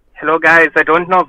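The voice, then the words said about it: Put-on German accent, odd pitch. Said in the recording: “every time I do the German accent, I have some strange pitch in my voice ... That is spot on. That is very good.”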